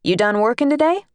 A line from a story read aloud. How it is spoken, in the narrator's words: said brightly